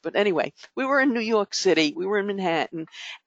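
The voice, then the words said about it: New York accent. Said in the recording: “we were in New York City, like you couldn't tell from my accent.”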